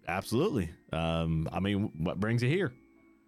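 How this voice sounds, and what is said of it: Bartender character voice with accent. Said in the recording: “I like your accent”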